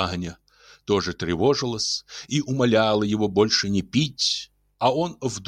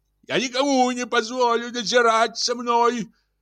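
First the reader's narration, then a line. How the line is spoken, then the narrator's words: Shouting. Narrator (Russian): кричал он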